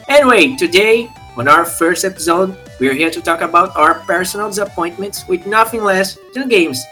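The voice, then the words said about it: Brazilian accent speaking English. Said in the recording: “Brazilians starting a podcast in English. Yes, we know, our accent's trash.”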